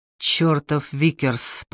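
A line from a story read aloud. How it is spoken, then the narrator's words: Muttered. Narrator (Russian): пробормотал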